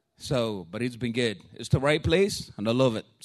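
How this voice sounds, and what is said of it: Thick accent. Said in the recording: “my accent is a little bit extra thick this morning”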